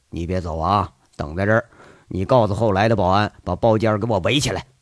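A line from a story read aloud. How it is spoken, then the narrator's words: Soft-spoken. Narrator (Chinese): 杨伟轻声说着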